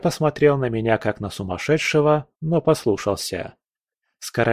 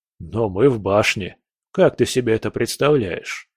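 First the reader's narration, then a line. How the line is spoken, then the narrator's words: Laughing. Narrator (Russian): Я рассмеялся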